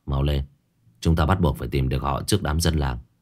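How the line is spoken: Low urgent voice. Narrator (Vietnamese): Lý Đức Vượng nhỏ giọng

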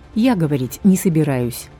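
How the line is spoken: Deep sigh. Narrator (Russian): вздохнула всем существом

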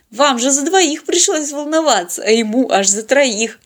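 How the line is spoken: Giggling. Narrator (Russian): хихикнула Полина

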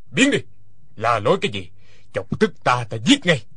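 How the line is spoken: Harsh bark. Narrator (Vietnamese): Hoa Thiết Cán quát lên

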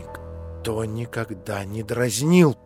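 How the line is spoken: Frightened mutter. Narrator (Russian): пробормотала в испуге Аделаида

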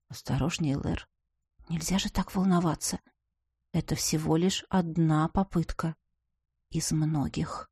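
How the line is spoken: Soft whisper. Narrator (Russian): тихо прошептала

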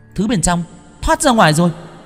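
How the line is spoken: Exclamation. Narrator (Vietnamese): Tuệ Linh kêu lên

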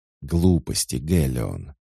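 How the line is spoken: Near hiss. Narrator (Russian): едва ли не зашипела Лиан

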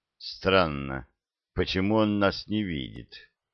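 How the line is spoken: Thoughtful, unguarded. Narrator (Russian): Задумчиво сказал пилот, забыв, что его слышат

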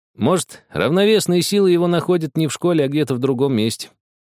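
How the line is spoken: Scoffing. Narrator (Russian): хмыкнул Влад

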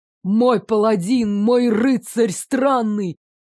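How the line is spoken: Roaring. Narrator (Russian): взревел король

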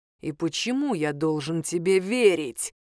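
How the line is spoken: Growling question. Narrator (Russian): прорычал Длинный

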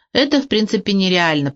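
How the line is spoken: Squeaky little voice. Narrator (Russian): пропищал канареечка

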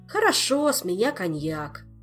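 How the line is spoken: Sigh. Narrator (Russian): вздохнул Шут

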